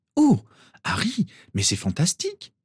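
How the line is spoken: Exclaimed. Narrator (French): s'exclama Ginny

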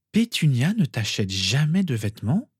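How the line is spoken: Incredulous. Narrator (French): demanda Lily d'une voix incrédule

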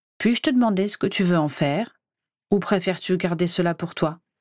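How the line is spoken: Slightly cold question. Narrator (French): s'enquit-il un peu froidement

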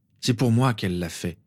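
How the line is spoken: Gloomy tone. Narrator (French): lui expliqua Harry d'un ton morne

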